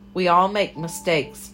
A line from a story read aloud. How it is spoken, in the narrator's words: Mama had said, as if she were pleading